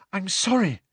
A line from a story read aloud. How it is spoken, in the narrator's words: Hermione gasped